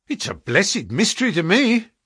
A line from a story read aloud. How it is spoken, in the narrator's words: cried Pycroft